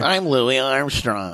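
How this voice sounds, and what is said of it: Imitates another person's voice. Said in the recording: “you're doing an impression of Louis Anderson”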